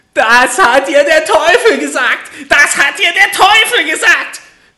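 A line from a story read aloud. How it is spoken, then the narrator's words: Little man screaming furiously. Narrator (German): schrie das Männlein und stieß mit dem rechten Fuß vor Zorn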